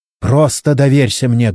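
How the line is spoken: Barked shout. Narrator (Russian): гаркнула на него Чен

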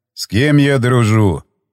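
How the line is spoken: Sighing. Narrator (Russian): вздохнул он

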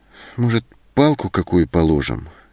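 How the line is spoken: Hesitant suggestion. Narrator (Russian): неуверенно предложила Зоська

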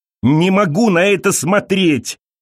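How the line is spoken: Shout. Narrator (Russian): закричала Элиза

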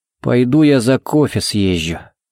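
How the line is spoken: Muttering. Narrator (Russian): буркнул он

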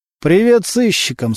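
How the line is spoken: Weak voice. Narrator (Russian): слабым голосом сказал Субботин

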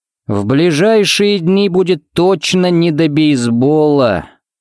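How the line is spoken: Drawling. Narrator (Russian): протянул он

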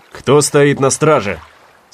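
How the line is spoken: Stern commanding shout. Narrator (Russian): строго крикнул Слейтон, так, как он это делал, когда проверял ночные посты

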